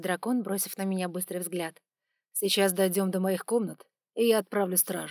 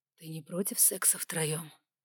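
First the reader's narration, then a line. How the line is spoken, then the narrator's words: Whispered in ear. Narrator (Russian): шепнул мне на ухо Саймон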